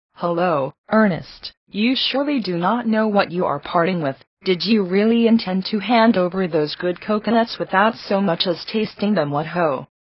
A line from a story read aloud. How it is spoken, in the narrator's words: his elder brother exclaimed